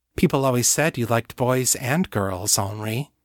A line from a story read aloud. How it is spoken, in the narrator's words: she purred